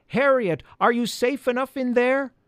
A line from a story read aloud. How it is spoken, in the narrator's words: yelled